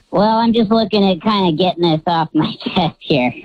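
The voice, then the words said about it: Cheery voice through a voice changer. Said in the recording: “You sound cheery even with a voice changer on”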